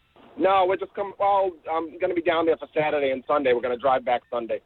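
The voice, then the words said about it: Boston accent. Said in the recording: “no one could tell that you have a Boston accent at all”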